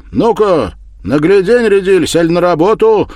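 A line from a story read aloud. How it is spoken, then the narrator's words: Sharp shout. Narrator (Russian): прикрикнул Мишук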